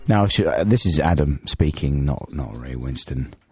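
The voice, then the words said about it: Hoarse, phlegmy voice from a cold. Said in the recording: “I've just got a bit of a cold, listeners, and it's gone to my cords. ... It's more than a bit of a cold. ... losing my voice ... The voice went wrong ... a little bit phlegmy”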